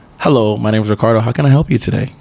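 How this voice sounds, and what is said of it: Put-on professional 'white voice'. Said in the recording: “I got a dope ass white voice... My white voice is like this... It just sounds professional, but it is a code switch.”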